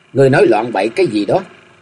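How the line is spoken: Cold, flustered. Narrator (Vietnamese): Cơ Chân Chân đỏ bừng mặt, lạnh lùng bảo

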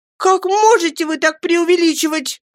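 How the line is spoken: Tearful exclamation. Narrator (Russian): воскликнула матушка, пуще прежнего заливаясь слезами

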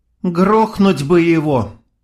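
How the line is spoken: Sighing. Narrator (Russian): вздохнула Майя

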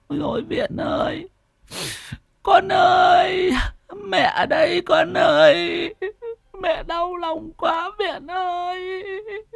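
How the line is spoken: Tearful wailing. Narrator (Vietnamese): Bà Thục và ông Cồm thì mếu máo

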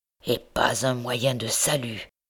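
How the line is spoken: Murmured. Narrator (French): murmurait-il

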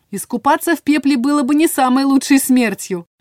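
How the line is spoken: Shouted reply. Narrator (Russian): крикнула в ответ

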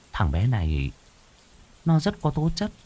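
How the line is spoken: Frowning mutter. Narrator (Vietnamese): Cô Hoàn nhíu mày, lẩm bẩm

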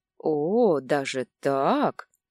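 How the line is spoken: Drawl. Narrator (Russian): протянул он

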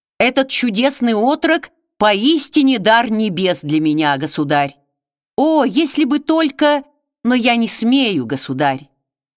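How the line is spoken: Highly animated exclamation. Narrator (Russian): Затем Абрагам снова пришел в необычайное оживление и воскликнул

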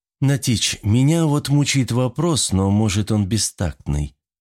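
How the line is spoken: Timid question. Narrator (Russian): робко спросила Катрина

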